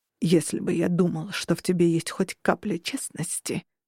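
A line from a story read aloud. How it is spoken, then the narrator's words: Through gritted teeth. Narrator (Russian): наконец выговорил он сквозь зубы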